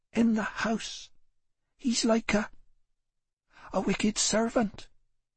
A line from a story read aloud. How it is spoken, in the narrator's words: Betty said more feebly